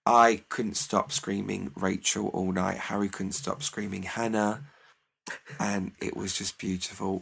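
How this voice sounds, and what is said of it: Slightly raspy, hoarse voice. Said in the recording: “I have a bit of a raspy voice today, is because I've still got a sore throat from it.”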